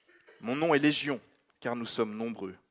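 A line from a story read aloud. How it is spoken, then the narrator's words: Plain. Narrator (French): répondit-il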